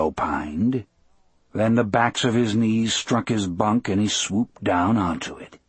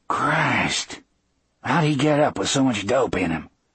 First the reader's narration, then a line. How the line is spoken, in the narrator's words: Dean whispered